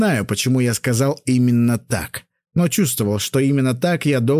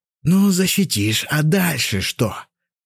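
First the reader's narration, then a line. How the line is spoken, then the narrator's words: Lazy question. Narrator (Russian): лениво спросил он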